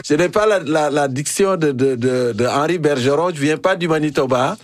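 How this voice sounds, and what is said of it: French with an African accent. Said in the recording (French): “mon accent africain ... C'est encore plus savoureux avec ton accent africain”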